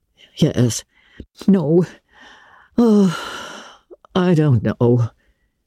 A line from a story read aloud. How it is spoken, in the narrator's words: said Marilla wearily